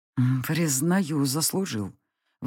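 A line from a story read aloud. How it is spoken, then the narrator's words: Breathed through fangs. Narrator (Russian): выдохнул он сквозь заострившиеся клыки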